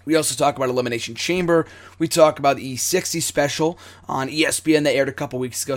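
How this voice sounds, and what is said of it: Hoarse voice. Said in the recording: “my voice is still hoarse. It is hoarse in the recording. It's hoarse right now... I'm sure my voice will still be hoarse”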